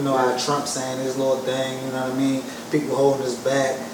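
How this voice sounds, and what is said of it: Strong regional accent. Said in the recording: “You got the worst accent.”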